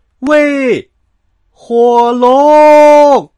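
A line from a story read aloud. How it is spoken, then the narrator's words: Loudest possible shout. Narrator (Chinese): 他尽可能的大声喊道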